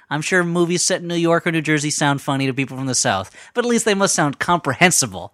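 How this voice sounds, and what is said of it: Northeastern American accent. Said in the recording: “I know I have a Northeastern accent”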